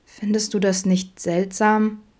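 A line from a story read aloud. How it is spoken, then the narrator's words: Sad woman asking. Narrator (German): fragte sie traurig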